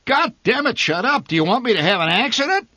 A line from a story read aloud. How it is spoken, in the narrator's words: My father bellowed